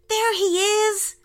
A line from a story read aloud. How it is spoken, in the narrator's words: shouted Isaac